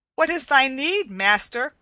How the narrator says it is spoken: cried Will Stutely

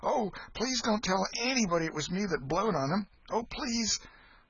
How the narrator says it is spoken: Huck exclaimed

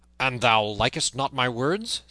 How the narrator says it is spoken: said the other fiercely

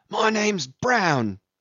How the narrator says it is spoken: answered the other loudly

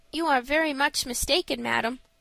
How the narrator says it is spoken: said Frank quietly

